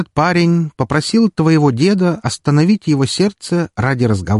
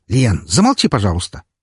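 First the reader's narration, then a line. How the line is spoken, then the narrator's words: Sharp. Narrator (Russian): резко сказал я ей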